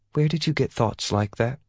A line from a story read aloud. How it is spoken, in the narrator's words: Ye asked softly